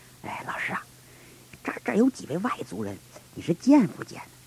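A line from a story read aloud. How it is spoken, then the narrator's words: Quiet question. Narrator (Chinese): 小声问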